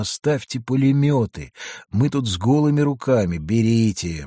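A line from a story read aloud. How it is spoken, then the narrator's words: Gloomy reply. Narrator (Russian): мрачно ответил Подхорунжий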